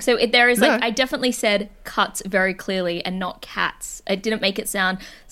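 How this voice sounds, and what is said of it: Mixed American and English accent. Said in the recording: “My accent is weird. Like, people think I'm from America sometimes, or they think I'm English. ... my voice is a bit odd.”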